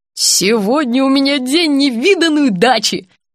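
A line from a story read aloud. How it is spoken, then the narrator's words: Joyful old woman exclaiming. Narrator (Russian): радостно воскликнула бабулька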